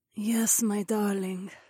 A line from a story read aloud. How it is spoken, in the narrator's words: Zoe murmured